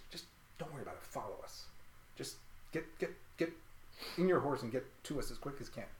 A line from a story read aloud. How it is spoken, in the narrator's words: Philippe just sort of whispers to Imperius